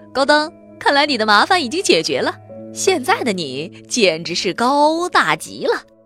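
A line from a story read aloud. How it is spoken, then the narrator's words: Joking. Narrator (Chinese): 托马斯开玩笑地说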